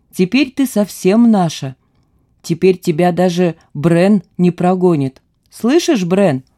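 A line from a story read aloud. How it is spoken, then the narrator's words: Sudden laugh, old man. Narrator (Russian): неожиданно засмеялся старик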